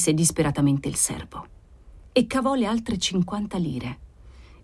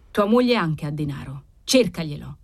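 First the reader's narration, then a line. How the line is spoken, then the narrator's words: Cold. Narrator (Italian): riprese Cavalcanti freddamente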